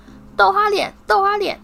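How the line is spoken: Loud taunting shout. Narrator (Chinese): 皮皮鬼大声喊着

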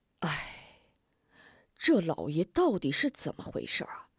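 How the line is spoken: Anxious sighing. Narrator (Chinese): 吴天顺急得唉声叹气

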